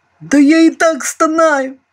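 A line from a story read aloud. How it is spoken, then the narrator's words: Displeased yelp. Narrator (Russian): Недовольно тявкнул старший мичман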